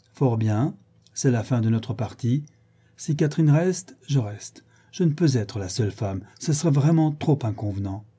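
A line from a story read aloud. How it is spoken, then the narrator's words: Cold resentful tone. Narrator (French): Isabelle, qui dit, d'un ton de froid ressentiment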